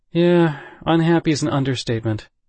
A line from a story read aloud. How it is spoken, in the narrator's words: Wong sighed